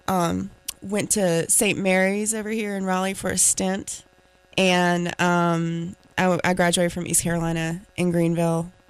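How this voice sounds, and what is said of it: Slight Southern American accent. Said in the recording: “Got myself a little bit of a Southern accent”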